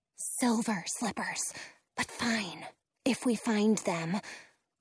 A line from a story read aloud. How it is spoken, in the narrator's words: whisper back